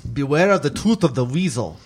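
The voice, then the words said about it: Poor put-on German accent. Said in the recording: “Not a very good German accent”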